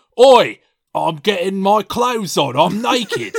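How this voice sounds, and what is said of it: Imitates another person's voice, Australian-sounding. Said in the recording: “That's a good impression. ... it's a good impression. I don't know who of, though. ... Australian”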